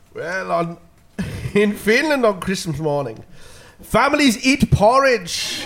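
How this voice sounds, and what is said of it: Put-on Finnish accent. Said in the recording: “in your best Finnish accent”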